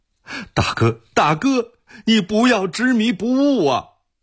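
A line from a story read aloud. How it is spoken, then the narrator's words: Crying. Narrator (Chinese): 文弼依然匍匐在地哭道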